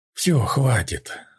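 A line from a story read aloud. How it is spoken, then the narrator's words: Hoarse, tearful. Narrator (Russian): хрипло сказала я, вытирая слезы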